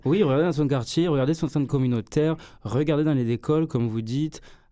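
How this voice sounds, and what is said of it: Southern regional accent. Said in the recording (French): “votre accent du sud”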